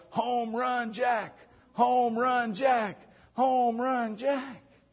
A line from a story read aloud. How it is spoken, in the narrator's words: they begin to yell